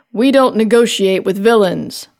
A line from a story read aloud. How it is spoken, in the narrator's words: White Lightning said